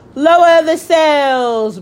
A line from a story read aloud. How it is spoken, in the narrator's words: Braidbeard shouted